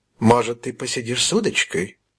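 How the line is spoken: Quiet question. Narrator (Russian): мадам Мегре тихо спросила

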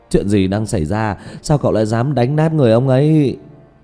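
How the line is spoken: Loud, trembling shout. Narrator (Vietnamese): Trương quản lý hét to run rẩy

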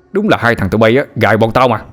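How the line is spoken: Familiar voice shouting from throat. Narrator (Vietnamese): Từ bên trong cổ họng của Na Già, một giọng nói rất quen quát lên

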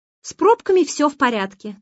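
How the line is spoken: Shouting. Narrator (Russian): крикнул Олег

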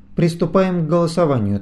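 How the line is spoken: Firm voice. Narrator (Russian): твердым голосом произнес Кай

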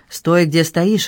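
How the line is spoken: Growl. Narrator (Russian): рыкнул Питер

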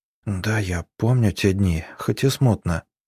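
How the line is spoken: Whisper. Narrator (Russian): прошептала Арина

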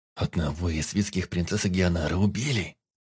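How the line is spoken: Lowered, solemn declaration. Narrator (Russian): Понизив голос, но все равно торжественно заявил Бастиан

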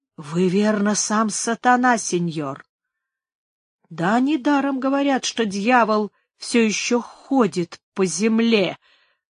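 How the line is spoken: Muttered angrily. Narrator (Russian): пробормотал со злостью Пригонеро

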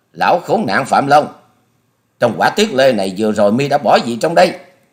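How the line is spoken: Furious shout. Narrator (Vietnamese): Hà Xà tiên tử biến sắc thét to

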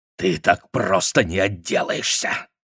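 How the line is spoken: Growling. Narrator (Russian): зарычал он

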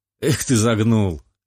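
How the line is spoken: Laughing. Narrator (Russian): рассмеялся

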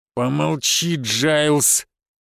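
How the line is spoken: Through clenched teeth. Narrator (Russian): процедил Фома сквозь зубы

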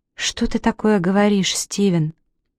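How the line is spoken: Near whisper question. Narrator (Russian): почти шепотом спросила

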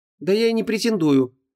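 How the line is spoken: Slightly offended. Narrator (Russian): чуть обиженно сказала Ванесса

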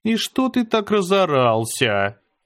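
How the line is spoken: Lazy reply. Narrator (Russian): Лениво отозвалась она

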